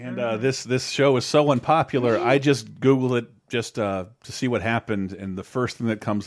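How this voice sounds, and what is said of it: Usual voice. Nothing is said of it.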